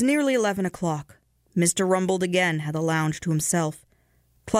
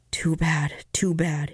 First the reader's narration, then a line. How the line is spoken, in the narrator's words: he muttered